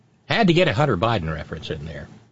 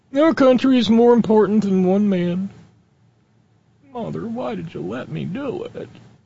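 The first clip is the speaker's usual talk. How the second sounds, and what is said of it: Mike Pence impression drifting into Don Knotts. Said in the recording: “My Mike Pence impression is rapidly morphing into Don Knotts.”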